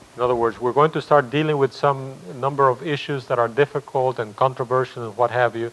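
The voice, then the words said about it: English with a Spanish accent. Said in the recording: “English spoken with a Spanish accent”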